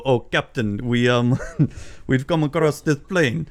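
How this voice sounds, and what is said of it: Impression of Star Trek's Chekov. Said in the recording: “I could do my Chekhov”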